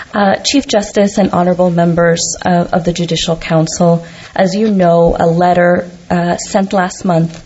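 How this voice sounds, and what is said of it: Slightly odd, unwell-sounding voice. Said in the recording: “I'm trying to get over something right now, so my voice is a little odd.”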